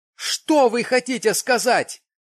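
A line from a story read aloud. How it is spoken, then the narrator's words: Terrified shout. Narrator (Russian): крикнул я, чувствуя в душе дрожь ужаса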